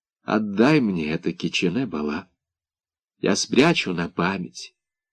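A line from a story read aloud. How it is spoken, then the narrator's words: Quiet, sad. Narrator (Russian): тихо сказала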